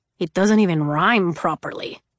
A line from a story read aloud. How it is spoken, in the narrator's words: Julian grumbled